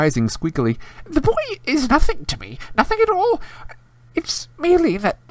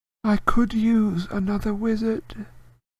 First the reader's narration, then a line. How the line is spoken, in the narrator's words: the cold voice said softly